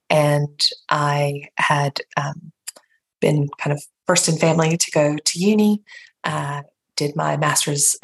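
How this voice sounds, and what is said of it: Appalachian North Carolina accent. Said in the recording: “as you can already tell from my accent ... born and raised in rural North Carolina in Appalachia”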